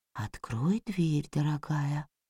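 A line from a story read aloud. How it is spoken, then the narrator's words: Very quiet. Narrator (Russian): произнес очень-очень тихо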